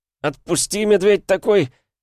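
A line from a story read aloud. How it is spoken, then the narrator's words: Hoarse, squeezed wheeze. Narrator (Russian): хрипел я в объятиях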